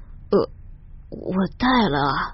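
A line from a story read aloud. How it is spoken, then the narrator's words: Panicked barely audible stammer. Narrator (Chinese): 男人用惊慌失措的眼神扫视着屋子里的人，用低不可闻的声音小声支吾着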